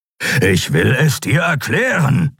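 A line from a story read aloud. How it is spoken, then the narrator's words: Growling. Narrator (German): knurrte Kero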